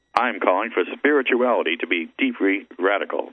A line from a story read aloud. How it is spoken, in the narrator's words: she said